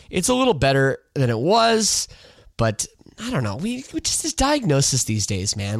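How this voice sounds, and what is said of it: Congested, stuffy-nosed voice. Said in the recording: “apologize for my voice. ... I'm sure you can hear it ... I am a little congested ... sinus infection”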